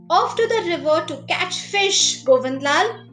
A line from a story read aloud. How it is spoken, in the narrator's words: Many farmers who were already in their fields watering their crops called out to them